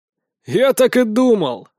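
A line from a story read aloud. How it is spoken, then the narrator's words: Amused snort. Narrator (Russian): хмыкнул жилистый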